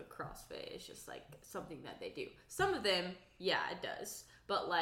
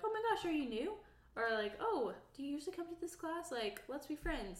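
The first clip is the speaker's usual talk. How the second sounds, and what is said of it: Older woman's voice. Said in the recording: “who are you impersonating there?... older ladies at the CrossFit gym... you sounded at least 53 years old”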